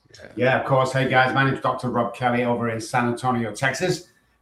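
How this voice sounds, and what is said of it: Manchester English accent. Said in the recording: “As you can tell by my accent, I'm from East Texas. No, I'm joking. Manchester, England.”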